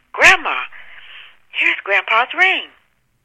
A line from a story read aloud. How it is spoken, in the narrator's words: granddaughter called out in an alarmingly loud voice